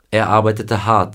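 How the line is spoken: Plain. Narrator (German): sagte er

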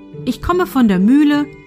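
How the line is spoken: Plain. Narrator (German): antwortete er

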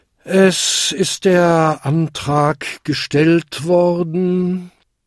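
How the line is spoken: Tired chairman. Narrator (German): sagte der müde Versammlungsleiter

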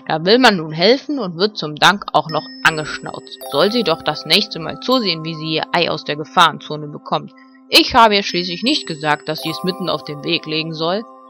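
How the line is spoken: Angry growl. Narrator (German): knurrte Ben verärgert

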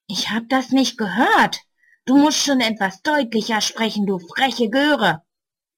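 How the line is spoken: Angry hiss. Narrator (German): Böse zischt er

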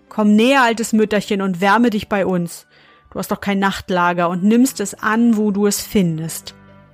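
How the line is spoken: Calling out. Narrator (German): rief ihr zu

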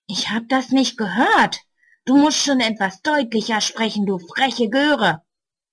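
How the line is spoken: Angry hiss. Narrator (German): Böse zischt er

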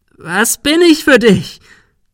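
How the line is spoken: Shrieked. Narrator (German): Sarah kreischte

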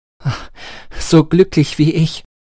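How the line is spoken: Exclaimed. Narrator (German): rief aus

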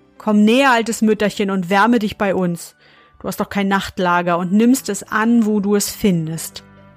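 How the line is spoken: Called out. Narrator (German): rief ihr zu

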